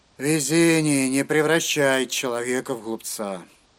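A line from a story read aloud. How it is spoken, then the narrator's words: Grumbling. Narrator (Russian): проворчал Эйзенхард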